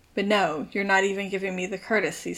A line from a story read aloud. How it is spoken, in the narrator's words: Styles says bitterly